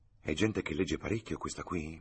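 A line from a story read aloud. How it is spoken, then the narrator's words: Whisper. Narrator (Italian): bisbigliò Freddy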